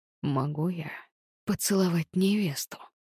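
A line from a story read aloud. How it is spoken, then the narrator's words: Hoarse repetition. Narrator (Russian): Хрипло повторил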